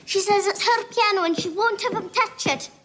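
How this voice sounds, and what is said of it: Scottish accent. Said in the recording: “that was a Scottish accent.”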